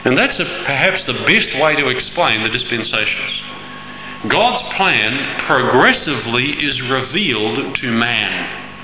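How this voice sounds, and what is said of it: Speaking very slowly. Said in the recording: “I'm talking very slowly.”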